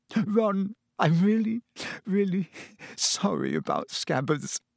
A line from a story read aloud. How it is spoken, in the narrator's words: she sobbed